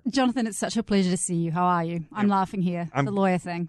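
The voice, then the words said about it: New Zealand accent. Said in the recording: “you have this New Zealand accent.”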